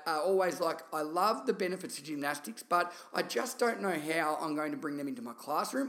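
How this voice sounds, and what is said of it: Thick Australian accent. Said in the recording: “Gemma has obviously not got a thick Australian accent like myself”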